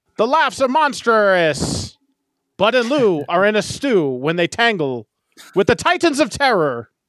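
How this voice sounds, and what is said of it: Old-timey transatlantic accent. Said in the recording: “I got to read it in an old timey Atlanticism accent voice. ... I'm going to keep with my old-timey voice.”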